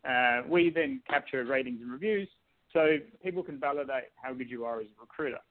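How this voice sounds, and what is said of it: Fast speech with an accent. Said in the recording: “You're talking too fast with an accent.”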